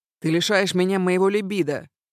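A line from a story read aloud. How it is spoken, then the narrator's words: Singer shouting. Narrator (Russian): кричала певица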